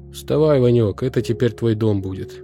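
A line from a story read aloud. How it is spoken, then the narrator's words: Plain. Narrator (Russian): сказал Игнат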